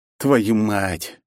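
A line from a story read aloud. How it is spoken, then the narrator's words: Resigned exhale. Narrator (Russian): обреченно выдохнул я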